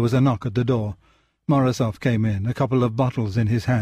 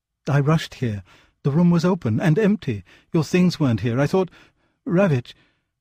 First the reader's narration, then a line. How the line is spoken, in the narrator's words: Her voice trembled